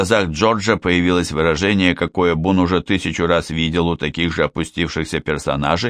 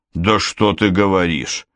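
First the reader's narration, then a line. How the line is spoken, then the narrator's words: Skeptical snort. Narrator (Russian): хмыкнул Бун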